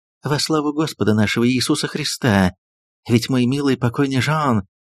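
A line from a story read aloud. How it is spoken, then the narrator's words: Whispered. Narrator (Russian): консульша прошептала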